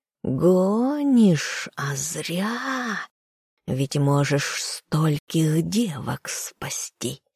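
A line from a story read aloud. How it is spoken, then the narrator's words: Nasty giggling hiss. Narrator (Russian): Тварь противно так захихикала и прошипела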